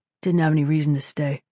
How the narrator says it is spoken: he mumbled

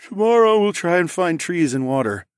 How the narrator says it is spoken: I said with a yawn

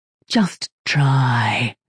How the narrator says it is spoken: the ship mind whispered

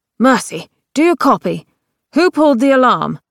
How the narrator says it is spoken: God said urgently

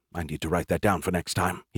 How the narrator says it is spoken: he muttered

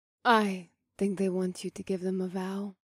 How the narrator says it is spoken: Mahini murmured in my ear

